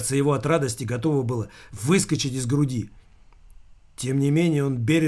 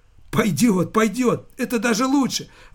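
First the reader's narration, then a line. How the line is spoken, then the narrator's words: Exclaiming. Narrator (Russian): воскликнул Замелькацкий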